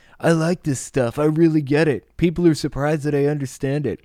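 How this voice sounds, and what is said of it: Old person trying to sound cool. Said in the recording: “I sound like an old person trying to sound cool right now”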